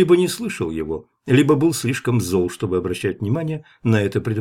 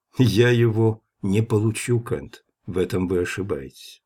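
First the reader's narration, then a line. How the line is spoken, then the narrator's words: Calm warning. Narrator (Russian): спокойно предупредил Гроссвен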